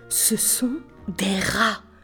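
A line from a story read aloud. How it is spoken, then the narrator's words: Young man murmuring. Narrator (French): murmura un jeune homme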